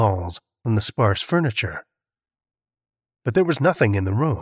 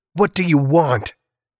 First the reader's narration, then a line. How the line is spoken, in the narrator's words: he shouted, more on instinct than out of any expectation of an answer